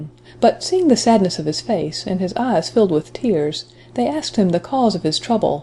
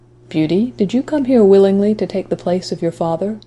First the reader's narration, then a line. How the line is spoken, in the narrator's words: the beast said in a mild tone